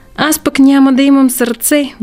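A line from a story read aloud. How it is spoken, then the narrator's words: Sighing. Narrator (Bulgarian): въздъхна тенекияния дървар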